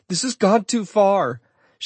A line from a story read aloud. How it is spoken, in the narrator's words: she screamed